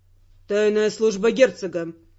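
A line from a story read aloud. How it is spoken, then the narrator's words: Cold. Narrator (Russian): холодно сказал он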